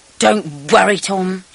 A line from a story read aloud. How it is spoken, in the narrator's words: growled